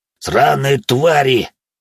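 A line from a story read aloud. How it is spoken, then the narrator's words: Pained growl. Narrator (Russian): рычал он, пока на него раз за разом накладывали заклинания, а глаз восстанавливал свою форму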